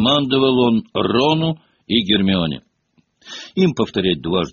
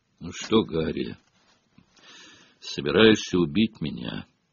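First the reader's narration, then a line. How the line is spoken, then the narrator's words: Hoarse wheeze. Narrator (Russian): прохрипел тот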